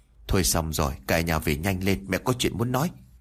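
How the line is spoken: Grandmother, dark, frightened. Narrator (Vietnamese): mặt của ngoại tôi liền sầm xuống rồi sợ hãi nói

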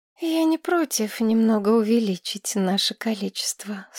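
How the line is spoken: Sleepy, smiling. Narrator (Russian): сонно улыбнулась Маргарет

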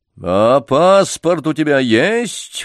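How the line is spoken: Sudden menacing roar. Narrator (Russian): вдруг грозно взревел доктор

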